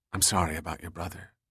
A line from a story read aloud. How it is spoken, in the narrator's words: said softly